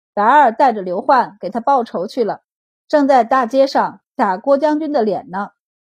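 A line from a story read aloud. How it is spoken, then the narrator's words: Amused. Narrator (Chinese): 他眼中忍不住闪过笑意，道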